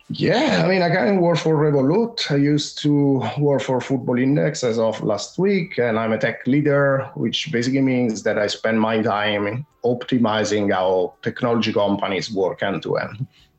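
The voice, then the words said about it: Slight Italian accent. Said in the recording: “I can tell the accent there a little bit ... Italian”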